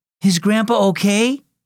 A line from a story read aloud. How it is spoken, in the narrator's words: asked anxiously